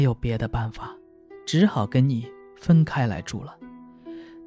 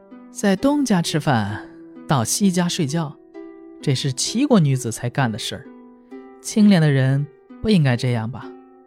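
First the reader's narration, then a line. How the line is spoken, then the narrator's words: Sheepish laughing. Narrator (Chinese): 马子才自己也笑了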